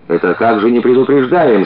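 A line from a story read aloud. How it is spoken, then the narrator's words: Worker yelling. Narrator (Russian): Завопил рабочий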